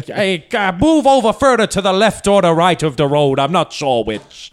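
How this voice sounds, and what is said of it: Put-on Dublin policeman accent. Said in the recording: “Prep your accents. ... Policeman. Policeman. ... In. Dublin. ... This is the closest I can do. ... That's pretty good.”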